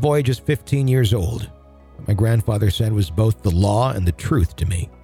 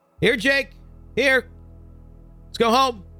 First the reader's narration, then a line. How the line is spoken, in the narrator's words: We all yelled